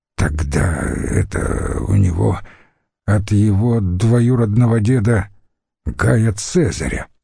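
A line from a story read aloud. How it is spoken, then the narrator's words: Hoarse and bored. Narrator (Russian): сказал Катон, снова хрипло и поскучнев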